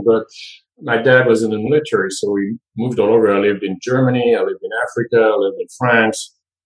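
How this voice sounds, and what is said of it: French accent. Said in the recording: “I was born in France, as you can hear. My French accent is definitely more noticeable”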